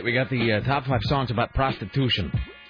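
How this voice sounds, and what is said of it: Put-on East Coast accent. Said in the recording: “affecting an East Coast accent.”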